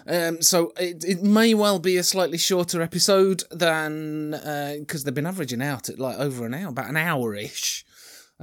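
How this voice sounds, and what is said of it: Sore-throated, sniffly voice with a cold. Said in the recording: “I've got a sore throat and sniffles. ... I apologise for all the sniffs and icks ... I've got a cold”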